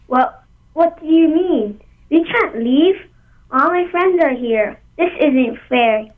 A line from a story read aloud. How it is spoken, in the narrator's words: cried Pili